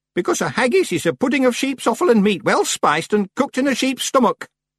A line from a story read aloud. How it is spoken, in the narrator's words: said Miss Treason sharply